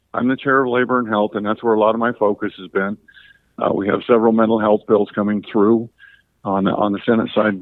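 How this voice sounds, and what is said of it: Strained, worn-out voice. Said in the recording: “I apologize for my voice this morning. I must be talking too much.”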